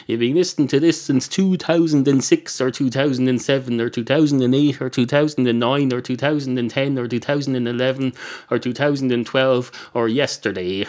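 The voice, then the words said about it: Strong, hard-to-follow regional accent. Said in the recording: “I may say it in a difficult to listen to accent”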